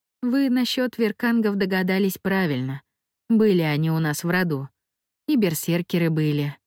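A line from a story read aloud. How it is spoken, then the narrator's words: Sighing. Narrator (Russian): вздохнула Мия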